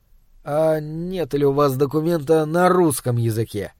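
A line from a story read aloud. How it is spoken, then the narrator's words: Crestfallen voice. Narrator (Russian): спросил я упавшим голосом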